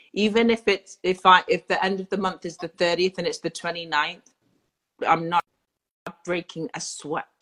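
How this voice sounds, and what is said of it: English accent. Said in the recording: “Your little English accent.”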